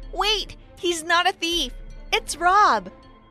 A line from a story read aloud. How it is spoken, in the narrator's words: I yelled out to my father